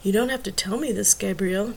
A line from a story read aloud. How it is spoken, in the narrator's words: Tracy whispered